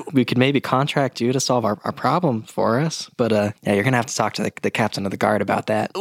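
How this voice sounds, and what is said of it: Impression of Scar. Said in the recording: “Your scar impression is absolutely scaring me. I thought he was really here.”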